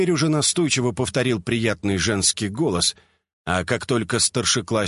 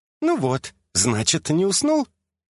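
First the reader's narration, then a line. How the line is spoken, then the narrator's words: Cheerful woman. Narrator (Russian): весело прокомментировала незнакомка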